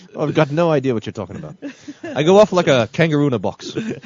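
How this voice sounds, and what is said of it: Put-on Australian accent. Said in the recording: “I might have to talk in an Australian accent”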